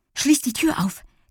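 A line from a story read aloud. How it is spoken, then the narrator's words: Breathless reply. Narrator (German): gab Lilli atemlos zurück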